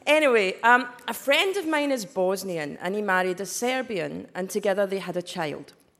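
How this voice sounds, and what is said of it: Scottish accent. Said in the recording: “this accent is Scottish”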